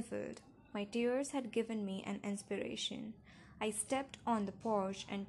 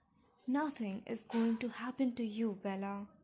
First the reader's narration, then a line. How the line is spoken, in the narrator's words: he said just as fiercely